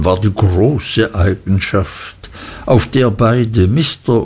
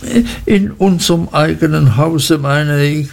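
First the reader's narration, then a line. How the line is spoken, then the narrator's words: Frightened mother stammering. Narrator (German): stotterte meine Mutter ganz erschrocken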